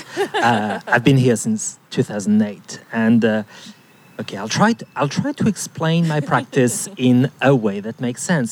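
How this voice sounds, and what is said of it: French accent. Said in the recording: “The accent comes from France.”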